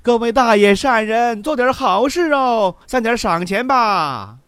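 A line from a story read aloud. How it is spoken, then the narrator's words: Crowd of beggars shouting. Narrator (Chinese): 众丐帮又趁机大喊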